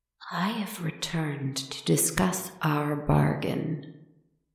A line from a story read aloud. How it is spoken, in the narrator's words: they said, their voice sickeningly soft and sweet